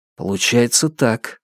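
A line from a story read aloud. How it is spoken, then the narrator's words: Quiet. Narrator (Russian): негромко ответил Фан Му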